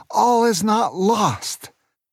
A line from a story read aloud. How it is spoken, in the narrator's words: He shouted to Aunt Sarah and Booker